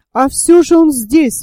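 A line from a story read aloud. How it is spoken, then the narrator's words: Exclamation. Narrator (Russian): воскликнул Гленарван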